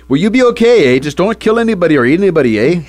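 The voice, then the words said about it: Put-on Canadian accent. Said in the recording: “That's my Canadian accent.”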